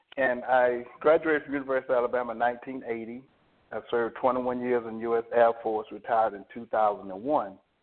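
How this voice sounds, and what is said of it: Alabama Southern accent. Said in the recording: “I'm from Alabama. ... You can probably pick up my accent”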